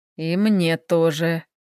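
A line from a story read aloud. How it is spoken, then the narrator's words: Inner groan. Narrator (Russian): застонал мысленно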